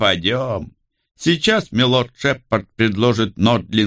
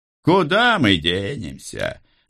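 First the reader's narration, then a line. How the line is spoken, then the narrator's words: Laughing. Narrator (Russian): рассмеялся один из тех, кто стоял рядом со мной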